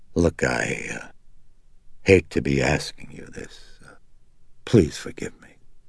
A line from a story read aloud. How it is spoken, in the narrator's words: he faltered, he said gravely